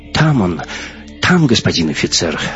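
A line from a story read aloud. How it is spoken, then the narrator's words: Frightened mumble. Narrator (Russian): забормотала перепуганная Галина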